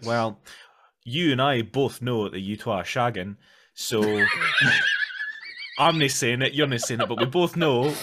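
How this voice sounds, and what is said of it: Put-on Scottish accent. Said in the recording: “That's exactly the accent that he used. He just lets go. He just lets the Scottish come out.”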